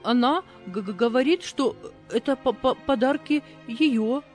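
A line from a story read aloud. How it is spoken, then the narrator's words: Stammering. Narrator (Russian): заикаясь, проговорила служанка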